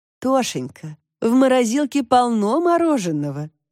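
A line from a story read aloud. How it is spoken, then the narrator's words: Laughing. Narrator (Russian): засмеялась Элечка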